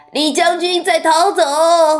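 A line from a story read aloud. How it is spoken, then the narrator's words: Shouted. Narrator (Chinese): Goodisball，他叫道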